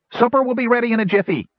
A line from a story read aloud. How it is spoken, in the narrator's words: he said brightly